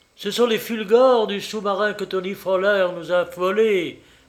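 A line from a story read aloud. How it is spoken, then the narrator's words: Exclaimed. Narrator (French): s'écria-t-il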